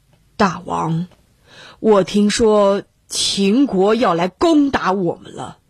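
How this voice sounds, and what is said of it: Calm, even voice. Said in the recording (Chinese): “用平静的声音说”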